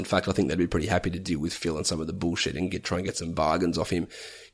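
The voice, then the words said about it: Croaky voice. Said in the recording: “my voice is turning very croaky”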